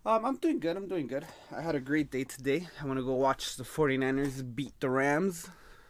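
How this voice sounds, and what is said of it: Hoarse, worn-out voice. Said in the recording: “my voice is recovering from all the yelling”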